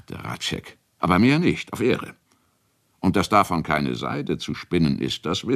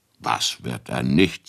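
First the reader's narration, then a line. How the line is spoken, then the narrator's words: Plain. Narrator (German): sagte Bugenhagen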